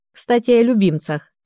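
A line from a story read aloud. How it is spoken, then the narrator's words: Snide. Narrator (Russian): ехидно проговорил он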